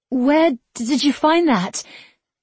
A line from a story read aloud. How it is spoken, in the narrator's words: She stuttered